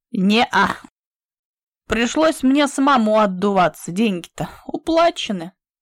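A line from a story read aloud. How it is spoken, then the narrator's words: Loud laughter. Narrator (Russian): Петька захохотал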